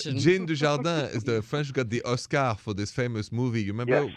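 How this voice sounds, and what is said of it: French accent. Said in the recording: “we just love ... voice so much ... it's sexy ... it's that French accent”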